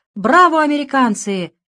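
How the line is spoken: Shouting. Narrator (Russian): кричал товарищ Костыль

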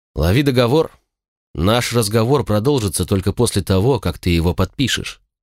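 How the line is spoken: Indifferent reply. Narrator (Russian): все тем же равнодушным голосом ответил я

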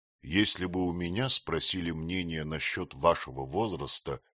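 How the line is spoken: Plain. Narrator (Russian): сказал ее сосед

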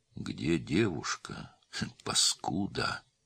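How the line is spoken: Gentle question. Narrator (Russian): ласково спросил Филипп

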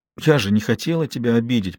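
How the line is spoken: Whisper. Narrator (Russian): прошептала она

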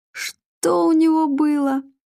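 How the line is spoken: Forced out through laughter. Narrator (Russian): корчась от хохота, выдавил Матвей

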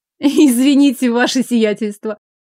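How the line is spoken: Involuntary laughing. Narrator (Russian): невольно рассмеялась Лиля

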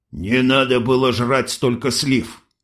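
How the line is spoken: Snort over radio. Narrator (Russian): хмыкнули из рации

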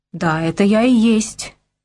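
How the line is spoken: Suddenly hoarse, overwhelmed breath. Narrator (Russian): мигом осипшим голосом выдохнул старпом, не надеявшийся когда-либо еще услышать русскую речь

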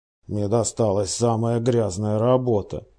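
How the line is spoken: Grumbled. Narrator (Russian): пробурчал Лестрейд

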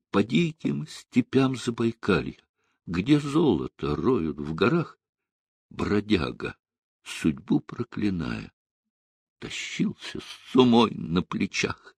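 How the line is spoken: Tearful singing, soft then loud. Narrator (Russian): улыбаясь, сквозь слезы, сначала тихо, а потом в полный голос запели

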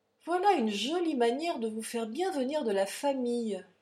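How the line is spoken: Conciliatory tone. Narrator (French): dit Fagan d'un ton conciliant

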